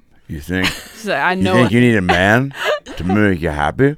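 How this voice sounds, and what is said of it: Drunk middle-aged Midwestern woman voice. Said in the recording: “recently divorced or widowed 50-year-old drunk Midwest gal ... Your range of drunk women”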